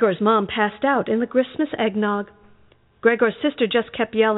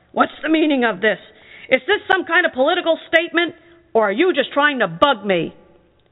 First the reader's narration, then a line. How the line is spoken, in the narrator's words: Gregor's dad was really mad and yelled